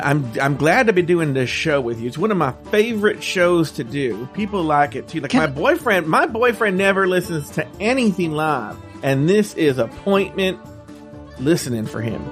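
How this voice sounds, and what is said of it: Southern American accent. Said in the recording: “your southern accent is so sexy ... that southern accent that he does when we're on the show”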